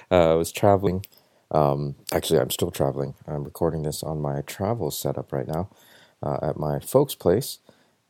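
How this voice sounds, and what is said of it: Tired, worn-out voice. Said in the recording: “I don't know if you could hear it in my voice. I'm a little wore out.”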